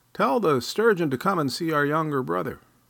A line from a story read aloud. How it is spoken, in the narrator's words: He shouted